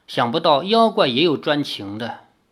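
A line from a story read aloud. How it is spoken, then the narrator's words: Sighing. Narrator (Chinese): 林月如叹道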